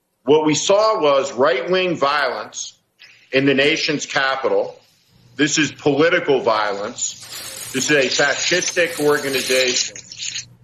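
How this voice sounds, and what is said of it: Affected-sounding accent like Carville's. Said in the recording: “What is that, a real accent ... is that a real accent? ... You got to have an affectation. ... He wants to be like Carville ... it sounds like an affectation.”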